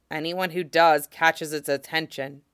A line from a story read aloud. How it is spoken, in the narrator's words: says grimly